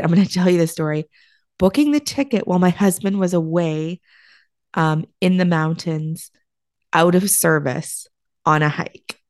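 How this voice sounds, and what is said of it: Hoarse, slightly deep voice. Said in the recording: “my voice is a little hoarse. ... I feel like I am Bart Simpson's auntie. That kind of sounds really manly ... I literally lost my voice when I came back. So it's actually coming back. It sounds better than it did.”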